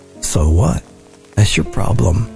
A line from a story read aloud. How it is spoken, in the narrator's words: they replied